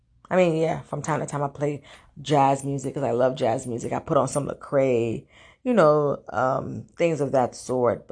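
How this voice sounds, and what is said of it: Deep, groggy morning voice. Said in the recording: “pardon my voice, I just woke up, just worked out, so I sound a little like deep. But that's my morning voice”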